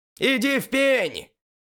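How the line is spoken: Shouted. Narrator (Russian): крикнул игрок с первым голосом

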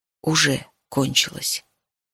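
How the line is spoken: Quiet. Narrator (Russian): тихо сказала

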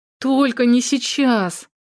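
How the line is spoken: Annoyed groan. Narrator (Russian): Досадливо простонала Александра

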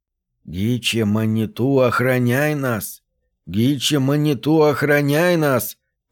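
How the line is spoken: Grumbling. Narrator (Russian): ворчал

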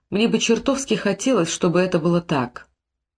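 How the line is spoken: Soft whisper. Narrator (Russian): Тедди тихо прошептал

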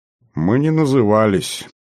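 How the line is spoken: Heavy sigh. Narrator (Russian): вздохнул он тяжело

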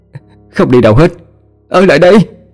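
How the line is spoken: Wailing, crying. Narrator (Vietnamese): Nó gào khóc

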